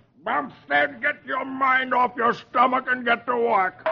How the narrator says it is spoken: Dagwood's boss yells

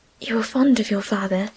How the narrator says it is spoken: she added in a whisper

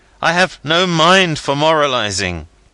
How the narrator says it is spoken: cried

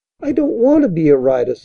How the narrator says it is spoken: said Toby sadly

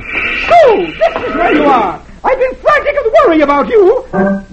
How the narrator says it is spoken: dashes in, screeching

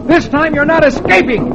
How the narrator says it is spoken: Dick shouts

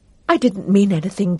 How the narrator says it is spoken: Dale said unsteadily

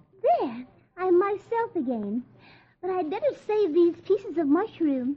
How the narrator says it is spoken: Alice exclaims

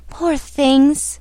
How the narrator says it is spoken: murmured the queen softly

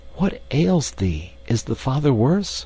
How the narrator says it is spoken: he whispered in alarm

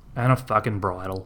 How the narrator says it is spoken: David grumbled

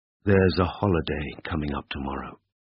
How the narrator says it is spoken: Ivan answered in a low, mellow voice

